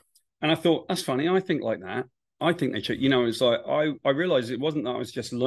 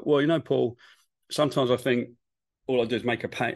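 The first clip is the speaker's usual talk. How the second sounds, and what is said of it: Alan Moore impression. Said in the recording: “my Alan Moore impression”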